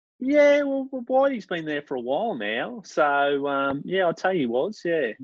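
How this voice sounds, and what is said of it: Queensland Australian accent. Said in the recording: “my Queensland accent”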